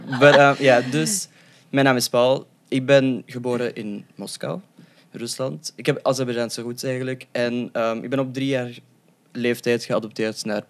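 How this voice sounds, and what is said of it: Belgian Flemish-accented Dutch. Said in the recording (Dutch): “sorry voor mijn accent ... Je gaat je nooit excuseren voor je accent ... België represent”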